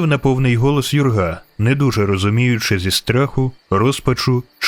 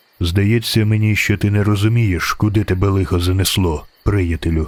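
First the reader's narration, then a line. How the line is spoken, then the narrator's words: Calm. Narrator (Ukrainian): Спокійно сказав незнайомець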